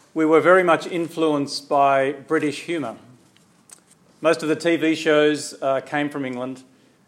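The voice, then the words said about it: Australian accent. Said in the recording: “You may have heard in my accent that I'm actually not from this part of the world. I come from Australia”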